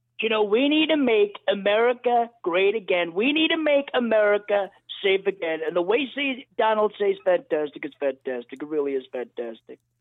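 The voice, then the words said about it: Donald Trump impression. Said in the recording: “everyone's doing Donald Trump. This is my Donald Trump impression. You've got to listen. It's fantastic. You've got to listen to Danny.”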